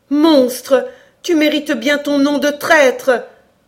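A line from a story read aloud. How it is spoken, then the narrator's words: Indignant outburst. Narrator (French): s'écria Cora dans une explosion d'indignation filiale qu'elle ne put comprimer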